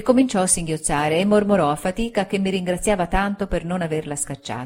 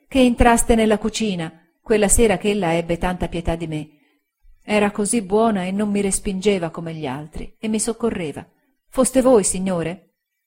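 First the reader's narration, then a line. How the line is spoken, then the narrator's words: Voice choked with tears. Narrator (Italian): ella disse con voce soffocata dal pianto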